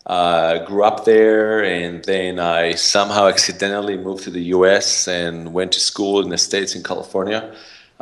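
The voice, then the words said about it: Israeli accent. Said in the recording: “I have an accent, originally from Israel”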